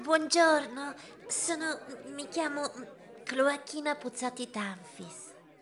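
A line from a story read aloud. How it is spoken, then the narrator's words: Woman whispers awkwardly. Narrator (Italian): sussurrò lei goffamente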